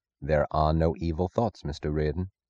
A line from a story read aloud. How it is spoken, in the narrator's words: Francisco said softly